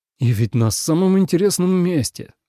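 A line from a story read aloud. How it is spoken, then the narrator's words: Sighing. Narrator (Russian): вздохнул Ленард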